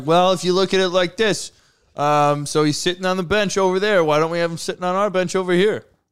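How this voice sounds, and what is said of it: Dumb-sounding imitation of another person. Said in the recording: “that's his dumb voice too ... Jerry Reinsdorf sitting there like”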